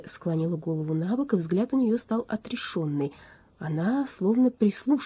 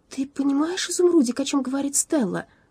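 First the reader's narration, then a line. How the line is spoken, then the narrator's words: Agitated. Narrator (Russian): взволнованно произнесла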